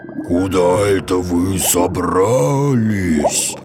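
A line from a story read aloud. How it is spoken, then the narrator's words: Nasty hiss, octopus. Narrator (Russian): мерзко прошипел самый большой осьминог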